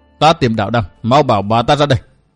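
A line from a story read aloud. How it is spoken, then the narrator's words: Angry. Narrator (Vietnamese): Tiểu Nhạn hầm hầm tức giận nói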